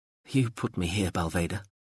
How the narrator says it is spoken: said quietly

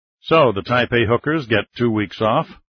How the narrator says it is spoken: Sink Pack asked, with a chuckle

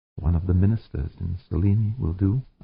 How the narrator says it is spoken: Amanda said softly

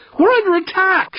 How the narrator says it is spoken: screamed

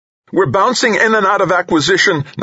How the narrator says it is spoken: Nakamura shouted

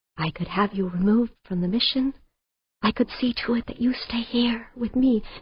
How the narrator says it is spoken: In a gentle whisper, he said

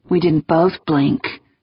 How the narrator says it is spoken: Negroponte muttered

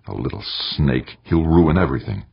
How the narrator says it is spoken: Fighting against the fear rising within him, Eberly snarled

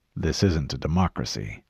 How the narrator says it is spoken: the Master Chief said, his voice both calm and dangerous

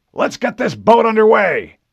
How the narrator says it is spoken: Admiral Whitcomb barked

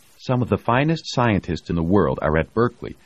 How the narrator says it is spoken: Lucille was saying stiffly

